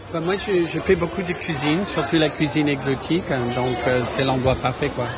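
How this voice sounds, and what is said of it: Slight American accent in French. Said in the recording (French): “Je reconnais un petit accent, ... Monsieur américain.”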